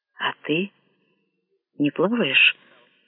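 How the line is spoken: Composer's whispered question. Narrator (Russian): шепотом спросил композитор у Анадеры

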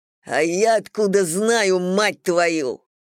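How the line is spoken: Angry growl. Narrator (Russian): прорычал Брэд

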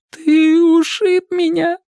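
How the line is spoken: Sobbing. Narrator (Russian): рыдал Мэтчем

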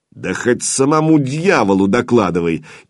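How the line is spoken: Ghoul's mocking laughter. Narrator (Russian): издевательски захохотал упырь

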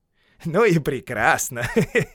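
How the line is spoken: Laughing. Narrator (Russian): засмеялся Бильбо

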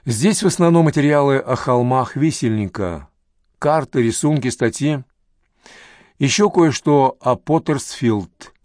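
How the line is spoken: Plain. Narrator (Russian): сказала она

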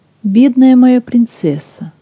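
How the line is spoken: Sighing. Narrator (Russian): вздохнул

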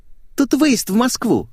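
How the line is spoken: Cheerful explanation. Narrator (Russian): весело объяснила она

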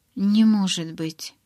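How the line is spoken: Surprised mutter. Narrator (Russian): пробормотала я

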